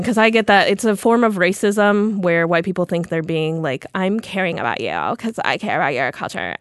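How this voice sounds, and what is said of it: Put-on white girl accent. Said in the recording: “Your white girl accent is so on point... My accents are so good, actually.”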